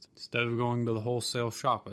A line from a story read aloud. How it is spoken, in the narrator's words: said